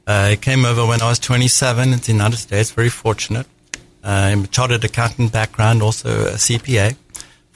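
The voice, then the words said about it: South African accent. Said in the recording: “I hail from South Africa. That's the accent.”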